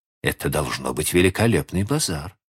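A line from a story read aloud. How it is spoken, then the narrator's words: Plain. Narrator (Russian): сказала она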